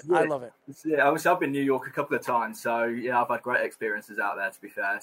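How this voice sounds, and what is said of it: London English accent. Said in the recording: “those London guys ... They love the accents”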